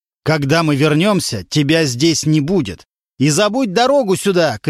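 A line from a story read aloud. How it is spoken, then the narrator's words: Shouting from the stairwell. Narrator (Russian): кричал он уже с лестничной клетки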